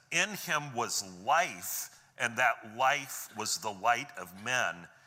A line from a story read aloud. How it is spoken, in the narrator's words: it says